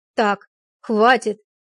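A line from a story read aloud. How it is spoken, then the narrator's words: Angry bark. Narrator (Russian): рявкнула она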